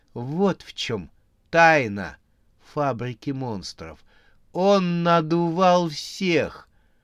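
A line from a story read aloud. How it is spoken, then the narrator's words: Joyful laughter. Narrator (Russian): Она радостно расхохоталась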